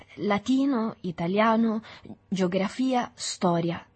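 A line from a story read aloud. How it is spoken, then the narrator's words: Stammered. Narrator (Italian): balbettò Agostino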